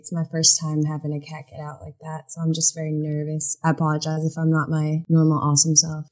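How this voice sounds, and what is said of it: Clear generic American accent. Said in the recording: “you have a very, I would say, a clear, like generic American accent”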